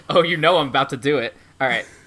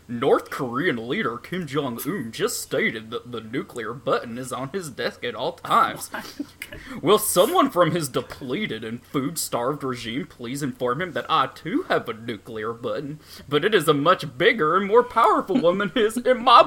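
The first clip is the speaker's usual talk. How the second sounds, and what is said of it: Goofy imitation of another person's voice. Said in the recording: “in a goofy voice ... the funny, dangerous Donald Trump voice”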